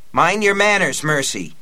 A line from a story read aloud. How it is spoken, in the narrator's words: Aunt Talitha said sharply